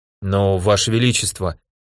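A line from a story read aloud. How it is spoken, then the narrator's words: Mumbling. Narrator (Russian): промямлил центурион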